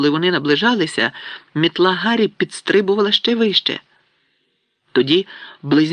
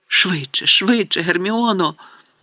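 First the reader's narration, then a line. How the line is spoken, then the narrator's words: Desperate muttering. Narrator (Ukrainian): бурмотів у відчай Рон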